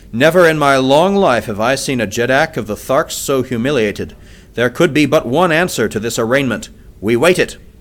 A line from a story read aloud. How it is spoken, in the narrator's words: said Lorquas Tomal in a cold, hard voice